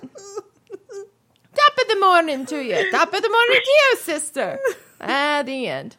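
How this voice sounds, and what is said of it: Put-on Irish accent. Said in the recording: “Irish sisters, you say? Let's do it right now. ... Irish!”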